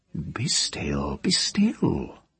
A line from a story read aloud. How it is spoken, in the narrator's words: she told him tenderly